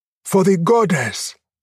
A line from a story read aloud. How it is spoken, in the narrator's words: they screamed back